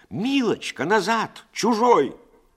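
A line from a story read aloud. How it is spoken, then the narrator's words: Old woman shouting. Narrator (Russian): старушка, которая крикнула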